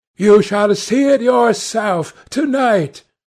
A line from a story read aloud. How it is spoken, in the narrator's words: cried